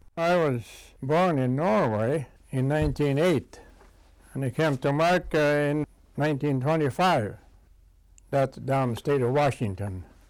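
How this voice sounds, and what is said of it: Distinct Norwegian accent. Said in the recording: “You will notice a distinct Norwegian accent.”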